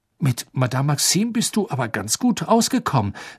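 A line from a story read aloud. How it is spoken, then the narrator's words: Plain. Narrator (German): sagte Harry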